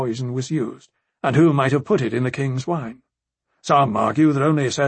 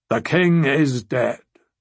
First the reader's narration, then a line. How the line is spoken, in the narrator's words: the sea snake announced gravely